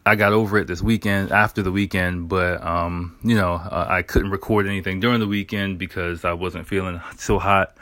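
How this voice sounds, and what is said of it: Slightly hoarse voice. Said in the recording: “my voice is a little bit hoarse ... a bit of a sore throat, like a cough”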